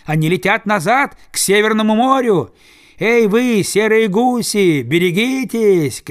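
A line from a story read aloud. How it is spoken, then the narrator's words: Distant shout. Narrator (Russian): кричал кто-то с другой стороны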